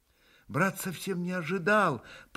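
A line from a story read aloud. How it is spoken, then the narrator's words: Mutter. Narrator (Russian): пробормотал был Алёша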